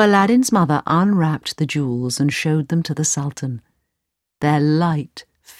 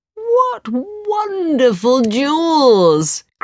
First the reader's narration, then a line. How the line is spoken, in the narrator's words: cried the Sultan